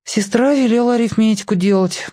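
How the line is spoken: Perfunctory sigh. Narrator (Russian): вздохнул я для порядка

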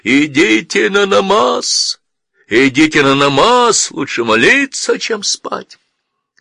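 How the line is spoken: Solemn, sad shout through cupped hands. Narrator (Russian): Он рупором поднес ко рту ладони, торжественно, но в то же время печально прокричал

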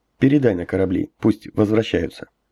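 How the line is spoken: Quiet command. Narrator (Russian): негромко приказал Ягу

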